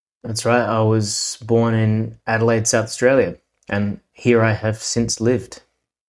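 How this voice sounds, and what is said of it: Distinct Australian accent. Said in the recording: “you have a very distinct Australian accent”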